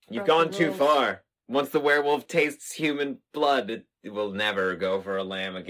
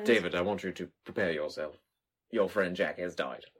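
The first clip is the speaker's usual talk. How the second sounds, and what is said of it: Bad put-on British accent. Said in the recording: “What accent was that? ... That was like, crikey. ... These are just so bad. ... we're not trying to do good accents ... just bad, bad over the ponds”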